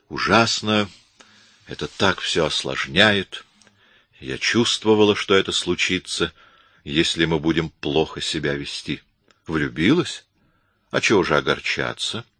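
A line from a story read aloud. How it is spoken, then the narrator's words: Said softly. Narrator (Russian): мягко сказал Коридон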